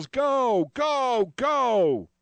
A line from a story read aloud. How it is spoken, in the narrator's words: the crowd yells